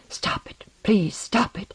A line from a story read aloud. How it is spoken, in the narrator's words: She hid her head in her arms and whispered